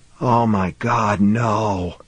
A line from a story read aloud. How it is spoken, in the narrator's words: Billingsley whispered